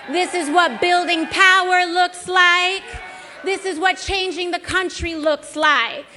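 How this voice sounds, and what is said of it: Unfamiliar put-on accent. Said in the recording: “She tried out a new accent that we have never heard from her before. See if you can pick up on this really subtle change to her diction.”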